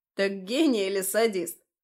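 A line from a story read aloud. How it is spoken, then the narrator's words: Playful chuckle. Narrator (Russian): задорно хохотнул зверь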